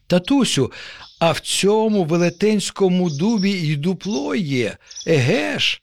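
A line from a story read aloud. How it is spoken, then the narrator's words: Child exclaims joyfully. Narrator (Ukrainian): радісно вигукнув нащадок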